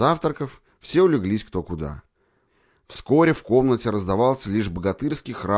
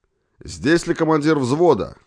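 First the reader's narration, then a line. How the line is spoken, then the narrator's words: Loud shout. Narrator (Russian): громко крикнул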